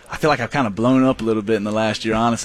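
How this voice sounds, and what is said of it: Regional American accent. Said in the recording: “I love your accent.”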